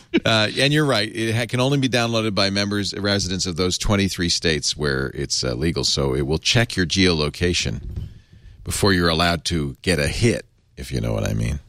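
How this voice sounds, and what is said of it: Stoner voice. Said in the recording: “You do a good stoner voice.”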